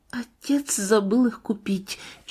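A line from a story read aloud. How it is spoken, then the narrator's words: Barely audible, pained, ashamed. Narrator (Russian): чуть слышно добавила она про себя с чувством боли и стыда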